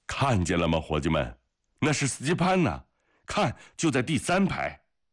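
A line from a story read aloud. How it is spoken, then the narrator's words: Loud shouting. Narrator (Chinese): 叶梅利扬大声地叫着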